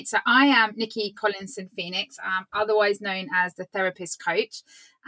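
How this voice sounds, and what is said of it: British accent. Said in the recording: “I'm in the UK, if you recognize the accent.”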